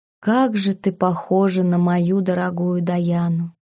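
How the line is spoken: Sad sigh. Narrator (Russian): Вздохнул он, и в глубине глаз всколыхнулась печаль

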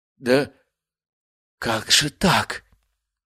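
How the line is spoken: Whispered. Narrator (Russian): прошептал Биркин

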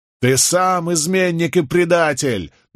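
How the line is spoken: Crowd shouting over each other. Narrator (Russian): наперебой кричали повстанцы

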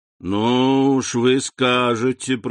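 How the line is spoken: Joyless drawl. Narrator (Russian): протянул Данглар, невесело улыбаясь

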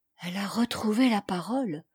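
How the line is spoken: Murmured. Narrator (French): murmura Dame Marthe

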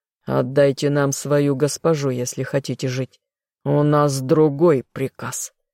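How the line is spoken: Guard's menacing growl. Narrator (Russian): зарычал королевский гвардеец

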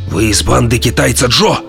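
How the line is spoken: Growled. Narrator (Russian): прорычал начальник

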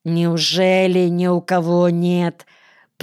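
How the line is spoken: Through gritted teeth. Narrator (Russian): процедил вор сквозь зубы

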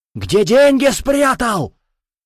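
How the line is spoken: Creature yelling. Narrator (Russian): заорал лишак

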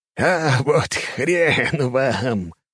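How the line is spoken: Chuckling. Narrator (Russian): хохотнул Фильк

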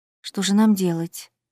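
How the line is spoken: Whispered. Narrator (Russian): прошептала Аннабет

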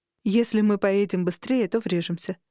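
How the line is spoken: Plain. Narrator (Russian): сказала я ему

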